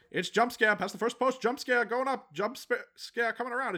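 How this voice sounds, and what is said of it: Old-time race announcer voice. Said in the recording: “1930s announcer voice”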